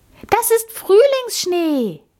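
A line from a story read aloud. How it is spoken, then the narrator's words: Called out. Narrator (German): rief Amalie jetzt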